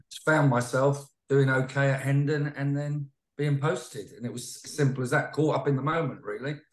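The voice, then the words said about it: Southern English London-area accent. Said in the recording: “judging from your accent, you're obviously from down that neck of the woods ... just outside London”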